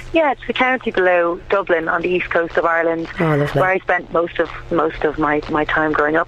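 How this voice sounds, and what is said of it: Irish accent. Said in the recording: “you're an Irish songstress ... I love your accent as well”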